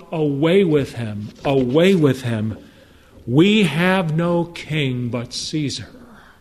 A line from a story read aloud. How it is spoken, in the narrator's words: They cried out